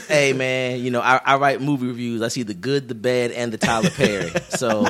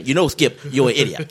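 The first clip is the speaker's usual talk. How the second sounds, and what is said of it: Excited, thick-mouthed imitated voice. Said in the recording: “my Shannon Sharp imitation ... to do Shannon Sharp, you have to sound very excited and that you have peanut butter almost up to the top of your mouth”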